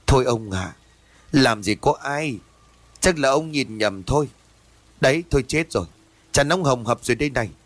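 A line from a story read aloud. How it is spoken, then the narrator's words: Sighing wife. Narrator (Vietnamese): Vợ của ông thở dài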